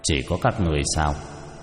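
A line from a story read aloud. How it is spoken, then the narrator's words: Cold. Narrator (Vietnamese): Cha Thân Vương lạnh lùng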